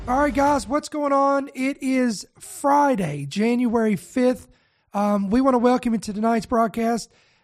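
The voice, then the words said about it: Raspy, nasal, congested voice. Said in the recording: “my voice sounds raspy, it sounds nasally, it's because I'm fighting off a virus ... a lot of upper congestion”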